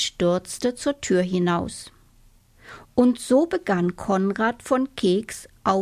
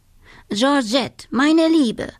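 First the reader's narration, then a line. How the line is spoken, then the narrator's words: Plain. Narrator (German): sagte er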